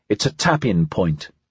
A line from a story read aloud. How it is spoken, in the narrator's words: said